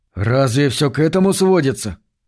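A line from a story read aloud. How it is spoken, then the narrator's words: Forced calm. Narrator (Russian): Грант старался говорить спокойно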